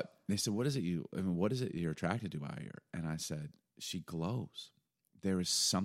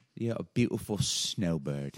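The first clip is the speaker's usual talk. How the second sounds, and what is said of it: Put-on accent, done badly. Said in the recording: “My accents are the worst.”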